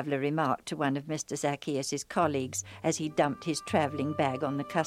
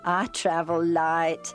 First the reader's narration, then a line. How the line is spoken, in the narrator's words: remarked with a laugh